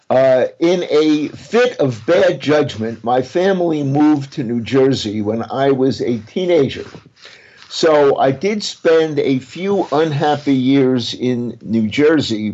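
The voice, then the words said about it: Brooklyn accent. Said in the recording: “I never lost my Brooklyn accent”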